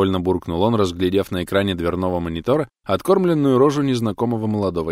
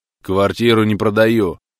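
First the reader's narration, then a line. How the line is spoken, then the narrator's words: Rude curt old man. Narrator (Russian): грубо оборвал пенсионер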